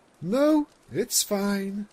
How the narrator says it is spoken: Luna sighed

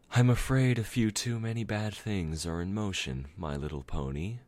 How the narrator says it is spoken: Celestia sighed softly

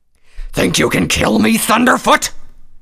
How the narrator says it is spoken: roared

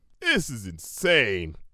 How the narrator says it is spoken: growled Cloud Kicker

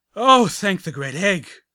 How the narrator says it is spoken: one of them blurted out

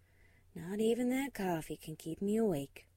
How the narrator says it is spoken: she sighed to herself

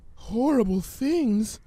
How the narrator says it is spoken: she whimpered

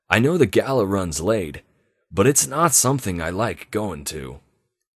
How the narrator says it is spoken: he said a little gruffly

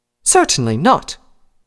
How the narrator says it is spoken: Rarity answered indignantly

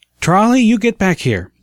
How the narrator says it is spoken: the mother called out

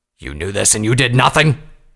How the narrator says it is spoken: Vanguard snarled

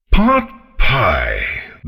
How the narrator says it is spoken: the dragon bellowed

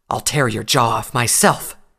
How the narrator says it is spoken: Nightcanter hissed

